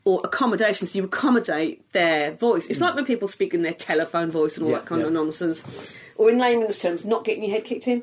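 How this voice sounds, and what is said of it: Broad regional British accent. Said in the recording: “this ridiculous fucking accent ... my accent wasn't quite as broad when I was growing up”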